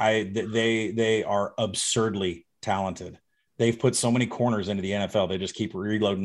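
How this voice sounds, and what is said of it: Usual voice. Nothing is said of it.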